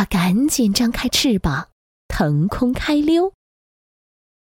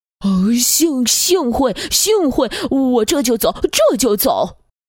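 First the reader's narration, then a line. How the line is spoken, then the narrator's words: Stammering. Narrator (Chinese): 他结结巴巴地说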